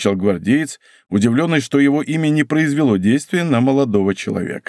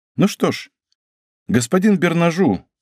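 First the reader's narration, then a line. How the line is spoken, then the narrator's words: Calm. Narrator (Russian): спокойно сказал Д'Артаньян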